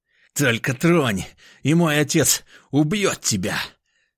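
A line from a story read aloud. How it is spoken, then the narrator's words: Angry hiss. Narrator (Russian): зло прошипел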